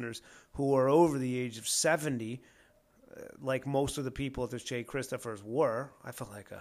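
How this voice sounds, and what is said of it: Usual voice. Nothing is said of it.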